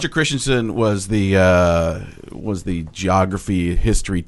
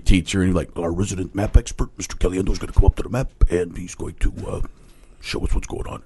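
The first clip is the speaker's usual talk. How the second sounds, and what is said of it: Imitates a teacher's voice. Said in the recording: “did you imitate school teachers ... I'd go up there and do the impression of him”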